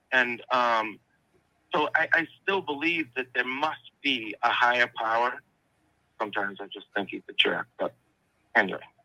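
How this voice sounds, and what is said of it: Boston-area American accent. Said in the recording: “Are you from Brooklyn or something? What's with the accent? ... I grew up just outside of Boston.”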